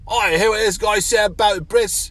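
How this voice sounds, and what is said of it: Poor put-on English accent. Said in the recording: “his shitty accent ... If you try to do an English accent, the heat twists it into an Australian accent”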